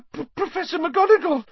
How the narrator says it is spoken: Hermione gasped

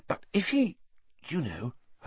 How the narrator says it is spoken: Hermione dropped her voice, glancing nervously around

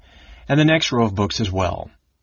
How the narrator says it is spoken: Astinus replied coldly

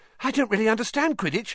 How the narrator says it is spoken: said Colin breathlessly

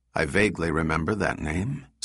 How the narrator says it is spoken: said David

